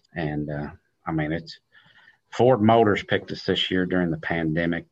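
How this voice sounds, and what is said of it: Southern country accent. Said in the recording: “She must have liked the accent ... good old country boy”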